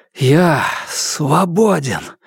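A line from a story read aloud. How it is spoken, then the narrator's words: Breathed out. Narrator (Russian): выдохнул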